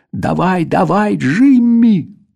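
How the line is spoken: Eager group yelling. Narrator (Russian): усердно орали мы

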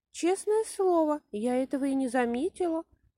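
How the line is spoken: Sad. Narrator (Russian): печально добавила она

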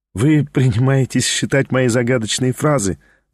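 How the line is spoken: Laughing. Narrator (Russian): засмеялась она

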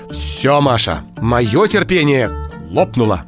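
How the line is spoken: Stern mother. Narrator (Russian): строго сказала мама

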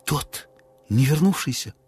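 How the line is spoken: Excited whisper. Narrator (Russian): взволнованно шепнула Низа

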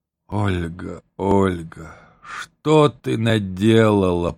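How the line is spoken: Moan. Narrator (Russian): простонал он

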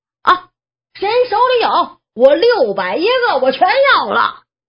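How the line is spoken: Bold shouting. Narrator (Chinese): 还有一个更猛的 喊着

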